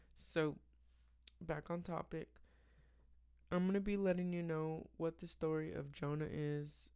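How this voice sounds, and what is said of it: Slightly raspy tired voice. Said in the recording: “my voice might sound a little bit raspy. A little bit raspy ... just because it's like 11 p.m. and I'm ready for bed”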